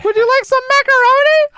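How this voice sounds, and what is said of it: Yelled high-pitched Toad voice. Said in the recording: “Toad's voice is insanely grating... calm it down, my ears... Why are you yelling like that high-pitched voice?... We only have one volume.”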